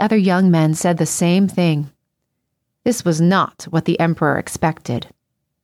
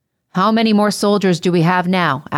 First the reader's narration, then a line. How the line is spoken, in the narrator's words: asked Claudius